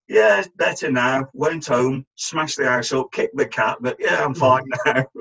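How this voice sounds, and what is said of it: Put-on northern English accent. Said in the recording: “in his best northern accent”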